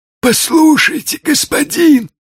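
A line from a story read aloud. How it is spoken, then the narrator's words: Exclaimed. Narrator (Russian): воскликнул Квазимодо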